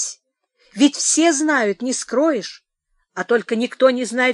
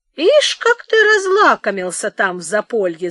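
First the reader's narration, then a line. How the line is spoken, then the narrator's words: Laughing. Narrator (Russian): засмеялся опять Михей Зотыч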